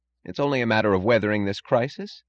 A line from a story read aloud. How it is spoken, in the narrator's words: said Mooch